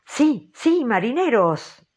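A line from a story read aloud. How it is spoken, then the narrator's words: Exclaimed. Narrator (Spanish): exclamó Ahab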